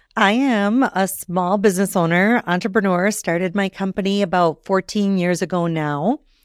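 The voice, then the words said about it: Minnesotan accent. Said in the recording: “what is that accent? You know, not quite Canadian, Minnesotan.”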